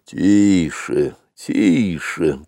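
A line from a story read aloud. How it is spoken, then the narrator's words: Wild elephant grumbling. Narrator (Russian): пробурчал дикий слон Хатхи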